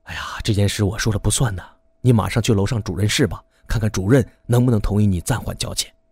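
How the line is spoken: Sighing whisper. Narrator (Chinese): 医生 叹了口气，悄声地说道

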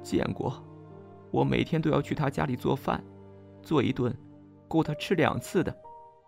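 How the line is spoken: Choked, sulky. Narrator (Chinese): 吴美华哽咽着 撇撇嘴说

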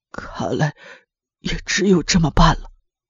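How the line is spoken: Muttering to himself. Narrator (Chinese): 光田嘴里喃喃自语

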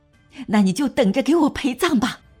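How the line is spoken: Furious pained yell. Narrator (Chinese): 南宫若恨然，随着骤然加剧的腹痛猛然发出一声怒喊

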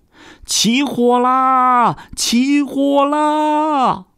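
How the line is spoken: Panicked crowd shouting. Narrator (Chinese): 人们啊啊啊地喊叫起来，大呼着

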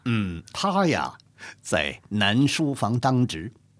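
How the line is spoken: Pausing, then continuing. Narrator (Chinese): 顿了一下，接着说

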